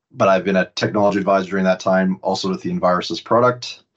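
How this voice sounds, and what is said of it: Canadian accent. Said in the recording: “Probably from the accent, you can tell I'm from Canada.”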